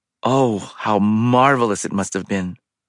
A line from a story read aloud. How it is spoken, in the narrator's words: the other twin sighed and said